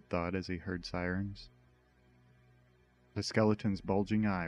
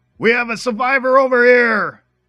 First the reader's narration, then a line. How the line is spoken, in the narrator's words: a man screamed